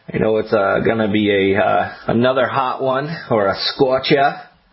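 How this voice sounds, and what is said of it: Weak attempt at Boston accent. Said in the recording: “It's my best Boston accent. It wasn't good.”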